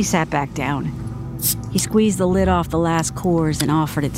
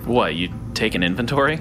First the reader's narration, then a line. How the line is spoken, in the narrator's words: snorted